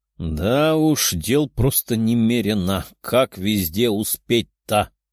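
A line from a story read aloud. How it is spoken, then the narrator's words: Grumbling. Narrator (Russian): проворчал Тео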